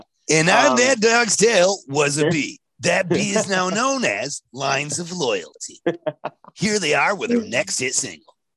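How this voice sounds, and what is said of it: Imitates a radio countdown host. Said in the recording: “I thought it wasn't a bad impersonation.”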